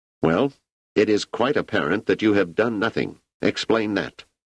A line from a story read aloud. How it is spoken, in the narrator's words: The leader said sharply